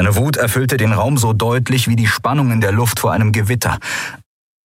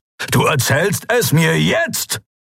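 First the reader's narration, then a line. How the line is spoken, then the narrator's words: Barked. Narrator (German): bellte er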